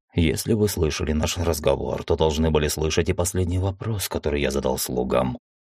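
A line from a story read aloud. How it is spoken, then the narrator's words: Quiet. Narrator (Russian): тихо сказал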